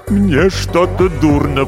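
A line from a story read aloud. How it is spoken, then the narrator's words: Moaning. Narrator (Russian): простонал писатель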